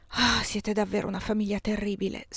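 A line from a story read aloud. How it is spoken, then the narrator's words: Sighed. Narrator (Italian): sospirai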